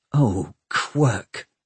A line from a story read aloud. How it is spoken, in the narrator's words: muttered Tom